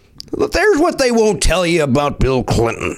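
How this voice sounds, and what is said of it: Imitates another person's voice. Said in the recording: “Can I do my Rush today? ... it's a good impression. It's a fun impression. ... That's pretty good.”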